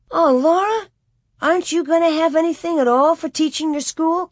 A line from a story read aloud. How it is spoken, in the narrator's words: Carrie exclaimed